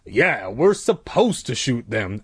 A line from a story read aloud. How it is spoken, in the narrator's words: Uncle Al replied coldly